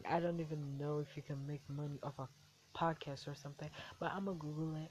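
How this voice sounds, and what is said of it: American accent. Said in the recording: “I'm from Africa with an American accent.”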